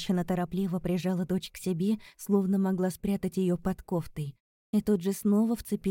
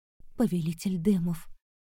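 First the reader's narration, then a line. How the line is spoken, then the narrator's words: Woman's whisper. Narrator (Russian): прошептала женщина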